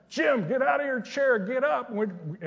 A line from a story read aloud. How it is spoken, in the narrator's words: She's yelling at me